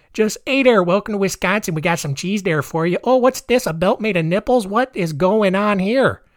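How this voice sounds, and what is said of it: Bad put-on Wisconsin accent. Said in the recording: “That's my bad Wisconsin accent.”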